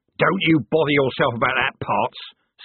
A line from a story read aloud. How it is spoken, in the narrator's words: snapped the corporal